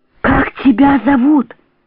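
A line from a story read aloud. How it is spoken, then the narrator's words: Whisper. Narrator (Russian): шепотом проговорила Варенька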